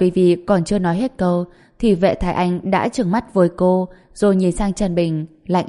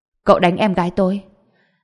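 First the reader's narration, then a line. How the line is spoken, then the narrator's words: Smiling. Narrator (Vietnamese): Trần Bình chỉ mỉm cười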